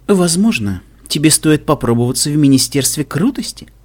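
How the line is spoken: Polite pleasant voice. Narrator (Russian): И вежливым, приятным голосом она добавила

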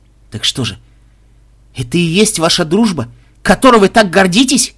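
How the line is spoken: Exclamation. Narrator (Russian): воскликнул он

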